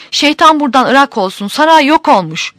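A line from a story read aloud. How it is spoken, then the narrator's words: Crying out. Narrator (Turkish): diye haykırmış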